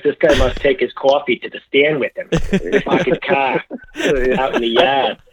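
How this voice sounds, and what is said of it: Attempted New Jersey accent sounding Bostonian. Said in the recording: “That's Boston. ... you got a lot of Boston in that.”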